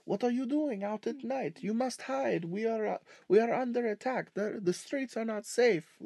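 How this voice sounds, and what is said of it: Put-on French accent. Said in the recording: “talking to you with a French accent, just going like”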